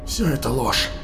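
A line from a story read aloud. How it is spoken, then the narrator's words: Hoarse rasp. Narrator (Russian): прохрипел Тарсом, повторив слова мальчика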